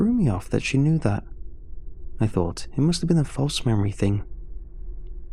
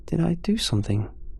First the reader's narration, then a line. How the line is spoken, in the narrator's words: she asked, her voice coated with sorrow